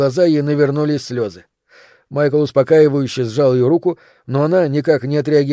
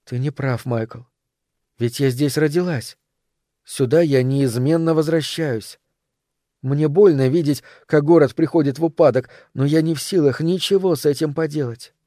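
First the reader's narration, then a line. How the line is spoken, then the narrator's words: Soft, gentle. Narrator (Russian): мягко сказала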